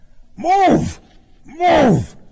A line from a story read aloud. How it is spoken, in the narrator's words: a loud, husky voice cried